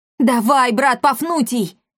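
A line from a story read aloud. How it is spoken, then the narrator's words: Yelled. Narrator (Russian): завопил Акаций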